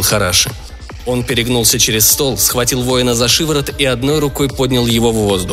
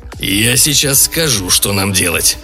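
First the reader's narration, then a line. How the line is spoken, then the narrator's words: Through gritted teeth. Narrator (Russian): процедил он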